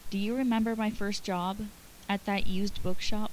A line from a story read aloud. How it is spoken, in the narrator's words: With a sigh, Remus said quietly